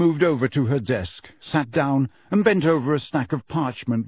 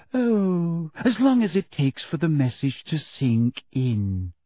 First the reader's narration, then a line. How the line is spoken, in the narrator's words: said Umbridge sweetly